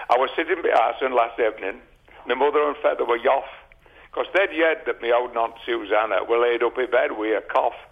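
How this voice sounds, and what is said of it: Northern English regional dialect recitation. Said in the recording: “That's my dialect.”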